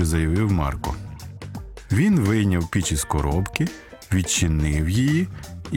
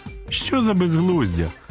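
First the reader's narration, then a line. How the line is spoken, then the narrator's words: Exclamation. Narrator (Ukrainian): вигукнула Моніка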